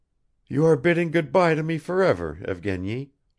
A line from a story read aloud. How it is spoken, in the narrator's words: said Arkady sadly